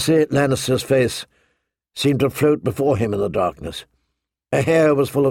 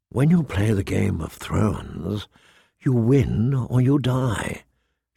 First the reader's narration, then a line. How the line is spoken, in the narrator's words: she whispered